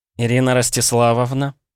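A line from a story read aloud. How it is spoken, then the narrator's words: Sugary cooing. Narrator (Russian): приторным голосом проворковала Наталья Минаева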